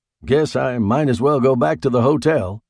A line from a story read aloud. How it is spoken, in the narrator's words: I said cheerfully